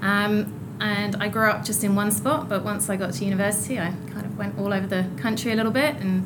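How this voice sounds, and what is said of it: English accent. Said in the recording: “our listeners will probably detect an accent ... I'm originally from the UK, just north of London”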